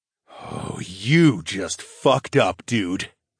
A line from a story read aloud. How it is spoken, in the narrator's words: growled and called out over my shoulder